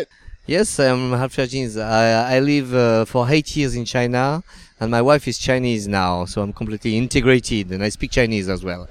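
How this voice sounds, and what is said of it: French accent. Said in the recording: “sound French”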